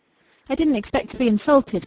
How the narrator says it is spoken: cried Rachel, flushing far redder than that rich hair of hers

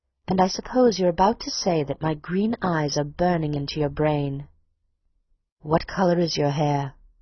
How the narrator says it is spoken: asked intently

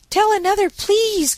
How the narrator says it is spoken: cried Daisy

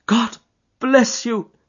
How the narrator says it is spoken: he cried

